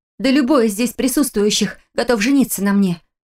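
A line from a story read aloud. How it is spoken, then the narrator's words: Exclaiming, trying to convince herself. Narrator (Russian): воскликнула я, больше пытаясь убедить себя, чем собеседницу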